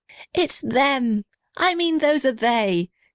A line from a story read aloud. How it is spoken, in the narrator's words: shouted the little red house happily